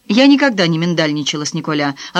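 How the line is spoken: Snapping back. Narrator (Russian): огрызнулась Франсуаза

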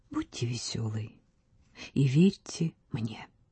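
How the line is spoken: Warm whisper. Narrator (Russian): Вальдемар сердечно шепнул

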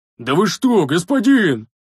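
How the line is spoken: Roaring like wounded beast. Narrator (Russian): Взревел Рикар раненым зверем

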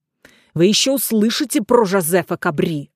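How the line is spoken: Angry mutter. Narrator (Russian): злобно пробормотал француз

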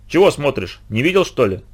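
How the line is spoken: Rude boy. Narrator (Russian): грубо спросил меня мальчишка

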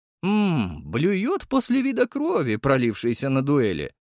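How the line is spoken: Cheerful grinning. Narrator (Russian): весело оскалился я

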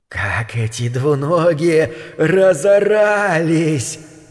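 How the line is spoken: Quiet hissing inner voice. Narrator (Russian): прошипел в его голове тихий голосок

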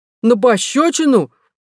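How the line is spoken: Angry exclamation. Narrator (Russian): воскликнул рассерженный Адам

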